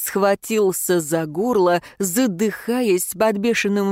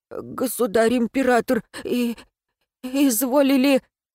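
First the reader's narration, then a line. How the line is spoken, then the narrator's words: Strained stammer. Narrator (Russian): Обер-камергер заикаясь, выдавил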